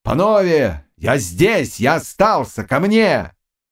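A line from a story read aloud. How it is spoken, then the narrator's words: Shouting. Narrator (Russian): кричал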